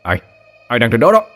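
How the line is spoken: Nervous shout. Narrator (Vietnamese): Anh Hùng vuốt ngực hít lấy một hơi thật sâu, hét lên

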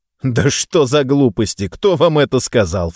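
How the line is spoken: Snort, cheerful laugh. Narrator (Russian): фыркнул я и весело рассмеялся

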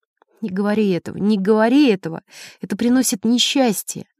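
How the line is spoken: Repeating through tears. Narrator (Russian): женщина начала плакать, и сквозь слезы она повторяла

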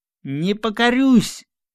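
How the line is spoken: Menacing shout, Cossack. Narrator (Russian): закричал казак грозно

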